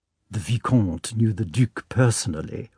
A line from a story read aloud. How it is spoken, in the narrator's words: whispered Anna Pavlovna